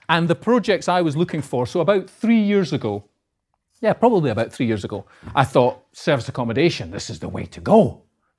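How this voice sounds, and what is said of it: Scottish accent. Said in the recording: “I'm from Edinburgh. As you can probably tell, but my accent is uh, north of the border.”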